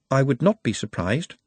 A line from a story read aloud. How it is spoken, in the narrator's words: said Nut calmly